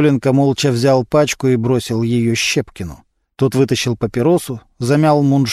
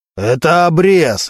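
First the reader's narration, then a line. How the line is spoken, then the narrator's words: Barked. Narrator (Russian): рявкнул Мантуленко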